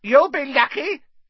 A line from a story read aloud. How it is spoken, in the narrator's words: said a cackling voice